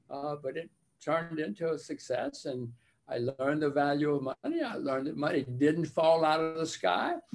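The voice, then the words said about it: Southern US Alabama accent. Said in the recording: “you've still got your Southern accent from Alabama”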